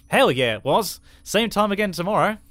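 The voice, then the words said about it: Australian accent impression. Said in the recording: “You're only allowed to do Dan in an Australian accent”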